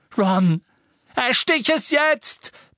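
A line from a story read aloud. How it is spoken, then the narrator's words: Roaring. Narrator (German): brüllte Harry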